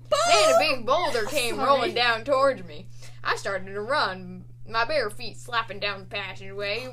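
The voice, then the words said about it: Storytelling in a put-on accent. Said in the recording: “What is this accent?”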